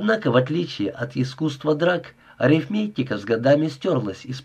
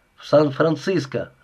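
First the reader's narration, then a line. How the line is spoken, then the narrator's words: Plain. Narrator (Russian): ответил Ричард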